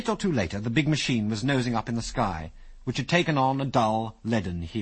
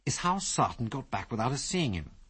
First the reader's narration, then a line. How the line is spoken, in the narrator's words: muttered Biggles